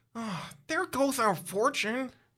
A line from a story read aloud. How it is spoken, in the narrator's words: Mike says wearily